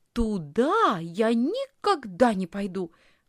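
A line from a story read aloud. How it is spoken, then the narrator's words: Exclaimed. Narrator (Russian): воскликнула Лисхин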